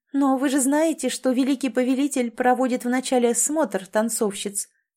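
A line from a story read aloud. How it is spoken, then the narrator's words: Snide, sarcastic. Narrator (Russian): ехидно продолжила Ан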